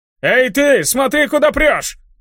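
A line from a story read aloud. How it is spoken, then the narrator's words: Indignant shout. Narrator (Russian): Возмущенно закричал он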